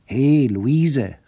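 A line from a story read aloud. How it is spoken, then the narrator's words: Called out. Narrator (German): rief er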